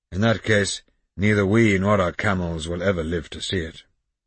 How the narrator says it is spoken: Sultan remarked gloomily

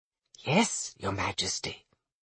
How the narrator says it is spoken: several of her ladies-in-waiting murmured

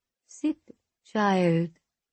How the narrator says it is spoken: she says, and though her voice is pleasant enough, an underlying malice

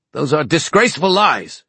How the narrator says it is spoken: he roared

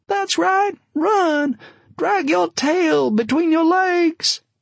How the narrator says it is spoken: Maria sobbing, and then she yelled out

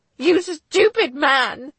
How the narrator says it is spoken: spat back

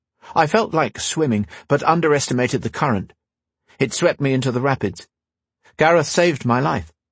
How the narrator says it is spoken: Quickly, Guy said

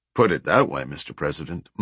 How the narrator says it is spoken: Montgomery said

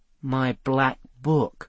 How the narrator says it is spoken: muttered Seth

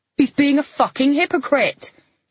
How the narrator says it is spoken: he shouted

